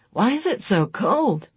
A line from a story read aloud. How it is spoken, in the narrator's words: Chris asked sleepily